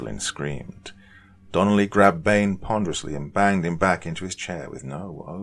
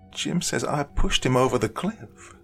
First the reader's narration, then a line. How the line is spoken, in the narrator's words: she cried hysterically